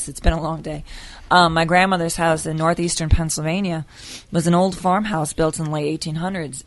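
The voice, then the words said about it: Hoarse, strained voice. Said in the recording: “<coughs> excuse me, I'm losing my voice.”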